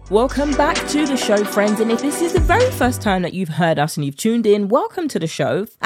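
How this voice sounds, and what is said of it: British accent. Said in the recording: “with my British accent keeping things relatable”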